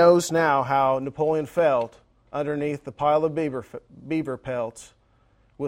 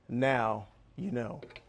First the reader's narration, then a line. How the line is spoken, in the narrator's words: Napoleon said softly